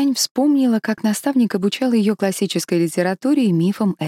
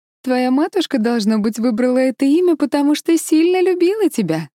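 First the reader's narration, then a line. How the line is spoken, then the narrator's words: Laughing. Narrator (Russian): рассмеялась она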